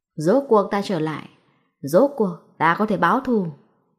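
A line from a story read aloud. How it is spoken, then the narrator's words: Vengeful loud shout. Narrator (Vietnamese): Lệ quỷ mặt đầy vẻ thù hận, lớn tiếng hét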